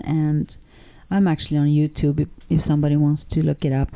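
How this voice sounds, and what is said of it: Swedish accent. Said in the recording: “you might hear an accent from her, and she comes from the wonderful country of Sweden”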